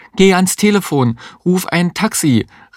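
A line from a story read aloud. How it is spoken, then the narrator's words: Woman calling out. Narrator (German): rief die Existenzialistin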